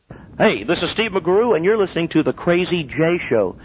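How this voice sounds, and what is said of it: Exaggerated crazy DJ voice. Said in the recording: “I'm doing a crazy DJ voice.”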